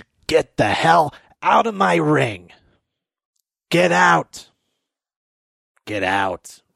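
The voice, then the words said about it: Imitates another person's voice. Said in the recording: “my very bad Seth Rollins impression”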